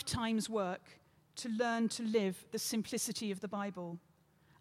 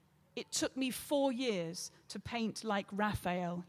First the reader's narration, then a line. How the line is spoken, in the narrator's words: said